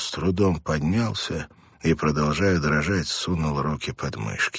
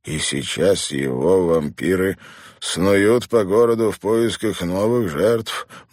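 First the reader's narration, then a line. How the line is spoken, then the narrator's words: Gloomy teacher. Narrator (Russian): мрачно продолжил учитель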